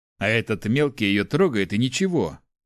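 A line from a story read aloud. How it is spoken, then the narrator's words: Displeased grumble. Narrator (Russian): недовольно проворчал воин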